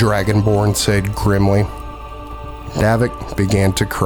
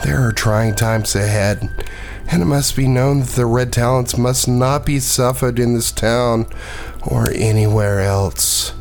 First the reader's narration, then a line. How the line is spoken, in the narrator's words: the halfling said sadly